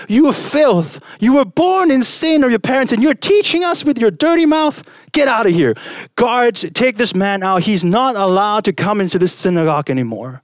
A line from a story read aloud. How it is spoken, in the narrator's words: The head of the Pharisees jumped up and he screamed at the blind man